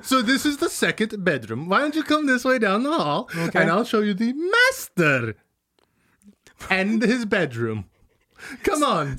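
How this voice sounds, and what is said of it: Put-on accent that keeps shifting. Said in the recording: “your accent keeps changing”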